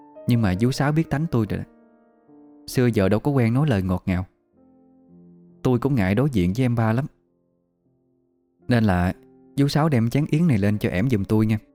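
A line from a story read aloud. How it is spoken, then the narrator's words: Soft, feigned hesitation. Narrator (Vietnamese): Bà hai làm bộ ngập ngừng, nhỏ nhẹ giọng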